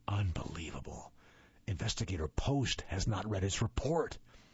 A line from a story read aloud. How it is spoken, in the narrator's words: with a grim smile on my face and whispered